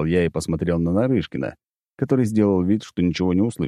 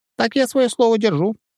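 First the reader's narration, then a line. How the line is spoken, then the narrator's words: Squeaky ghost voice. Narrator (Russian): пропищал призрак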